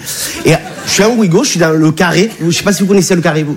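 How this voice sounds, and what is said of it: Speaks with a noticeable accent. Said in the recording (French): “T'as vu mon accent, je viens pas de Bagnolet”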